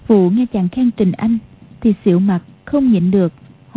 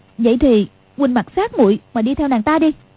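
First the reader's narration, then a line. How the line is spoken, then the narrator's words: Angry. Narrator (Vietnamese): Quách Phù tức giận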